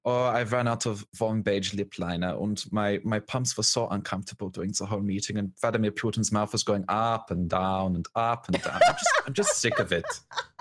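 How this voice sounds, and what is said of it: German-accented Angela Merkel impression. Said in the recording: “I can do a German accent ... I've always imagined her as she's all formal and political, and then she gets home and she just bitches”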